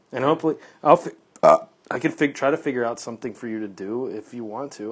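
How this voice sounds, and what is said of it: Slightly raspy voice. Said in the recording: “My voice sounds cool. ... A little raspy.”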